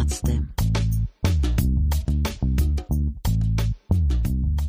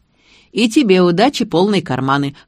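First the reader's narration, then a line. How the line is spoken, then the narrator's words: Smirking grunt. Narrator (Russian): хмыкнул он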